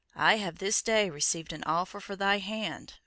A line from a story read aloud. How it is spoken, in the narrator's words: answered her father sadly